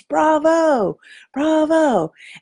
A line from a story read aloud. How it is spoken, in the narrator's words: he yells